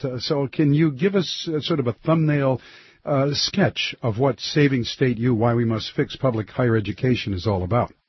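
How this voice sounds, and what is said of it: Congested voice with a cold. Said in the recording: “you can hear from my voice. My cold has not gone away.”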